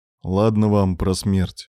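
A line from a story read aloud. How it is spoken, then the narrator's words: Sighing. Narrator (Russian): вздохнул Девятаев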